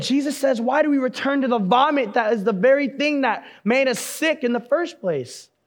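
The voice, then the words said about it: Loud, screaming preaching voice. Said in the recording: “I know it sounds like I'm screaming at you, because I'm always screaming anyway”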